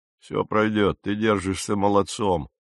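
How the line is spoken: Quiet, kind. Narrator (Russian): негромко и по-доброму произнес этот

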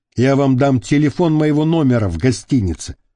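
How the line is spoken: Plain. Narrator (Russian): ответил Чома

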